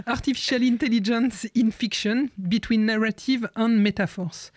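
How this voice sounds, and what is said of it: Attempted English accent. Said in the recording (French): “une tentative d'accent anglais”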